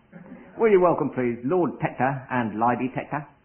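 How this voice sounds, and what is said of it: Put-on Cockney accent. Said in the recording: “I'll do this in a Cockney accent”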